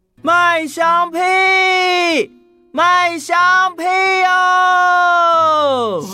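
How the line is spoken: Loud hawking cry. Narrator (Chinese): 弟弟捧着肚子大声的叫卖

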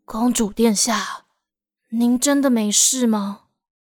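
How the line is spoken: Murmuring to herself. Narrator (Chinese): 卢娜 不禁喃喃自语

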